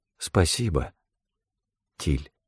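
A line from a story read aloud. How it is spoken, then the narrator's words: Quiet. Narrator (Russian): тихо произнесла она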